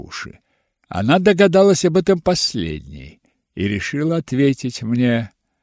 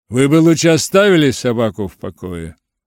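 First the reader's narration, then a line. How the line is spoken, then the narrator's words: Grumble. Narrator (Russian): проворчал мистер Хитклифф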